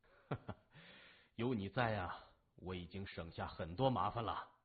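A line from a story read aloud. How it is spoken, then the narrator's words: Laughing. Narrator (Chinese): 谢文东笑着说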